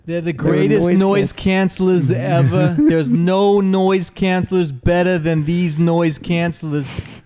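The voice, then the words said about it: Imitates another person's voice. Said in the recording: “Is that an impression of Joey Notes?”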